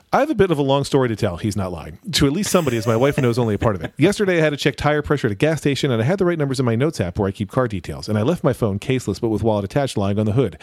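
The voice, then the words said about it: Very fast reading voice. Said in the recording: “I'm going to try to read it in my fast reading voice, so if you have your podcast player sped up, buckle up.”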